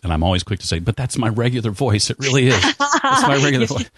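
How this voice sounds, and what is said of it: Deep radio voice, slightly congested. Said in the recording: “people often comment, though it's hard to tell today with a cold, on my radio voice ... You've got a voice for radio”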